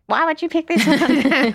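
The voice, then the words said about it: Ungenerous impression of a reader. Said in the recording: “my impression of a reader is not very generous”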